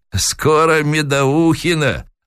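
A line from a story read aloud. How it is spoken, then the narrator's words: Sly old man's reply. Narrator (Russian): лукаво ответил старик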